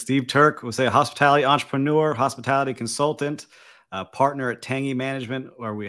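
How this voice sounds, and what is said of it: Crisp polished podcast voice. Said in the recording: “podcast voice is crisp”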